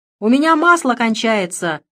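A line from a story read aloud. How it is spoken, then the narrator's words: Shout. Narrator (Russian): крикнула я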